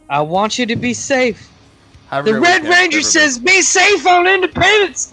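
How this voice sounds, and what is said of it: Usual voice. Nothing is said of it.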